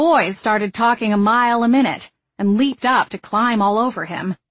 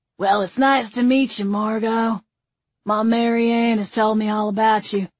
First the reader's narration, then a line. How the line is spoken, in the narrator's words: Carl rasped, in a bourbon-soaked drawl that should not have been sexy